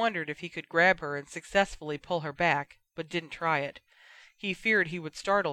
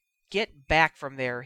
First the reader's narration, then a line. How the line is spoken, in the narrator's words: repeated sharply